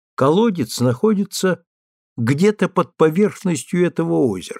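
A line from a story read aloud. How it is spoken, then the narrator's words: Plain. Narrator (Russian): сказал он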